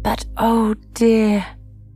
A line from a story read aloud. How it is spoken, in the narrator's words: cried Alice, with a sudden burst of tears